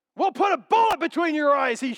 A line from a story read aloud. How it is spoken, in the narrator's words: he shouted